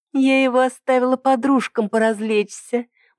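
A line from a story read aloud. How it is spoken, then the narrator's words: Purring. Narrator (Russian): мурлыкнула Ида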